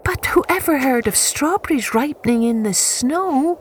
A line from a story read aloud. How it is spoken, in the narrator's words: exclaimed little sister